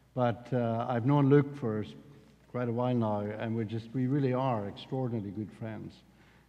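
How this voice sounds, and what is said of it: Northern Irish accent. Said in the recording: “I'm from the south of the north of Ireland, and if you get me really cross, my Irish accent will become even stronger than what it is now”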